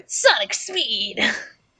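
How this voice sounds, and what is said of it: Cartoon character voice. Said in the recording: “try a Sonic voice”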